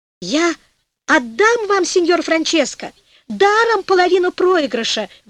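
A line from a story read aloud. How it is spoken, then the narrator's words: Devil howling. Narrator (Russian): вопил черт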